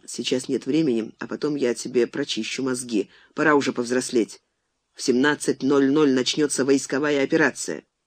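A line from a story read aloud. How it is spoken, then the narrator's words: Quiet. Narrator (Russian): Алехин тихо сказал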